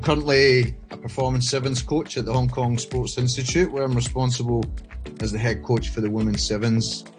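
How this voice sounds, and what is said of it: Scottish accent. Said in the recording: “I grew up in Scotland, as you can tell by the accent”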